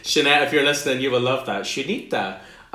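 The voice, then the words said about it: Put-on Spanish accent. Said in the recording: “speaking in a Spanish accent.”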